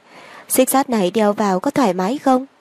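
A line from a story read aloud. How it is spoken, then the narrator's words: Smiling, teasing. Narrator (Vietnamese): Triệu Nguyên Thừa biết nàng cố ý mỉm cười, trêu chọc nói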